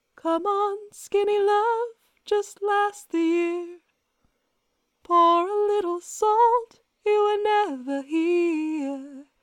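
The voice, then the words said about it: Sung imitation of another singer's voice. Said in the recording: “my best Birdie impersonation”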